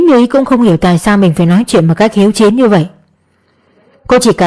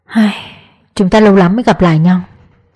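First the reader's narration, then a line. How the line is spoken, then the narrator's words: Sighing. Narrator (Vietnamese): Cường anh thở dài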